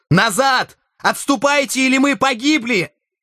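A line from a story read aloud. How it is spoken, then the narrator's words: Shout. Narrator (Russian): Я крикнул Энгельбректу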